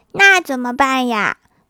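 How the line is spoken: Plain. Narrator (Chinese): 同桌说

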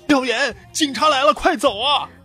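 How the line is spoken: Urgent shouting. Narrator (Chinese): 然哥啊，风风火火的跟我大吼道

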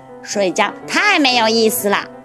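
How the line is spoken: Loud shouting. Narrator (Chinese): 霹雳鼠大叫着

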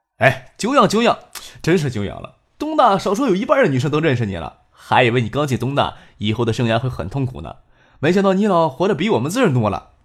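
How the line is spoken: Laughing. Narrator (Chinese): 都笑着说

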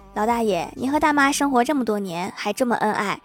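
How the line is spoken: Plain. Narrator (Chinese): 老爷爷说

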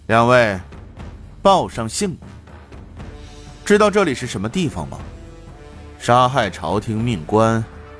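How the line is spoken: Flat, indifferent. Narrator (Chinese): 他淡淡的说道

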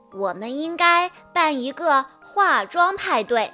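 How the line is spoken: Loud voice. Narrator (Chinese): 安娜·玛利亚……大声说道

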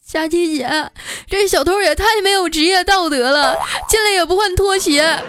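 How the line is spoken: Distraught, tearful, on phone. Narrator (Chinese): 丸子当时就崩溃了，给我打电话哭诉

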